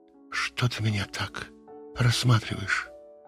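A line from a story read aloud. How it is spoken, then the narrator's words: Whispered question. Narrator (Russian): шепотом спросила Юлия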